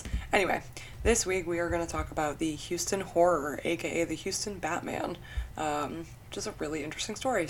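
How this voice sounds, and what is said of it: Nasal, sniffly congested voice. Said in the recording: “the way my voice sounds ... my allergies have been really bad, so I'm a little extra nasally and sniffly”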